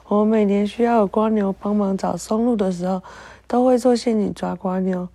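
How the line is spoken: Laughing to tears. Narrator (Chinese): 芦笋牙齿笑出来，眼泪说

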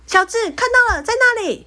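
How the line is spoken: Loud shout. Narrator (Chinese): 他大喊

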